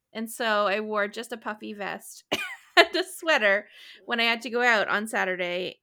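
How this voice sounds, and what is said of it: Congested, low, sultry sick voice. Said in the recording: “I have a cold. So that's why my voice sounds a little bit weird today ... It sounds sultry ... Sickly, sultry.”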